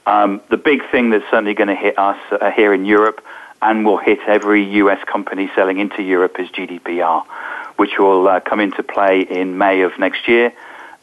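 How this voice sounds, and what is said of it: Non-American, London-based English accent. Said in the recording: “you can probably tell from my accent that I'm not American, so I'm actually based in London”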